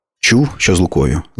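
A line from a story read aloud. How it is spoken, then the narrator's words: Plain question. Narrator (Ukrainian): запитала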